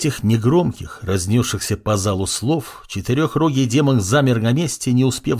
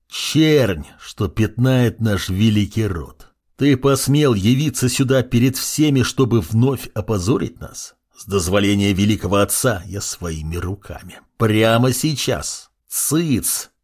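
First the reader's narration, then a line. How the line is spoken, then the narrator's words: Young man through teeth. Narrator (Russian): процедил сквозь зубы молодой демон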